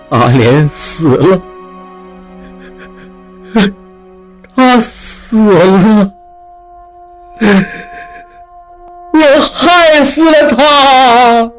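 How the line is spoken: Crying. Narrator (Chinese): 哭道

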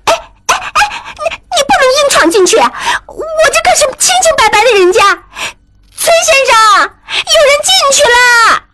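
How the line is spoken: Shouting. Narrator (Chinese): 小彩虹跟在后面喊

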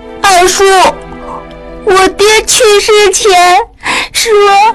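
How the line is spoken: Child breaking into sobs. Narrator (Chinese): 小孩子讲到一半突然大哭起来

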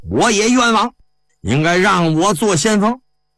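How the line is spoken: Loud. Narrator (Chinese): 又有一人大声说

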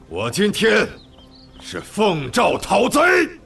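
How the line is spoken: Shouting. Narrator (Chinese): 曹操接着喊道

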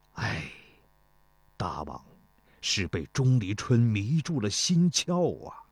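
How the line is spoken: Sighing. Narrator (Chinese): 他叹了口气说

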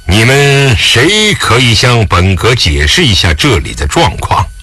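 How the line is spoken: Low, stern voice. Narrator (Chinese): 沉声道

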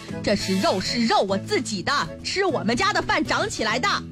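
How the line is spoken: Furious loud roar. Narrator (Chinese): 老王当时就生气了，他愤怒地大声地吼道

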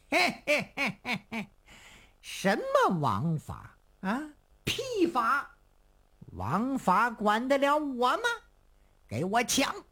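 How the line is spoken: Loud laughter. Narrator (Chinese): 成犀牛一听是哈哈大笑

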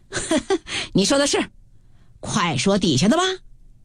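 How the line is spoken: Crowd laughing hard. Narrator (Chinese): 众人笑得弯腰说道

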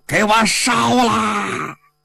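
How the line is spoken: Furious roar. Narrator (Chinese): 项羽一听啊，心里有说不出的愤恨，他压不住自己啊胸中的这个怒火呀，大吼一声

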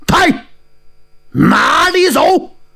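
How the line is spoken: Loud shout. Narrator (Chinese): 有人大叫

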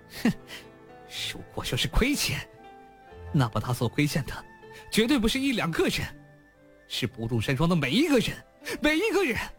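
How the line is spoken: Sudden crazed cold laugh. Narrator (Chinese): 娄天凡突然疯狂地冷笑道

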